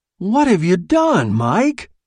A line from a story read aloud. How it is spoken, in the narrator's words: cried